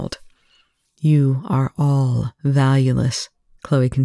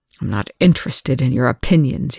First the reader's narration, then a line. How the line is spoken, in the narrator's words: Young snarled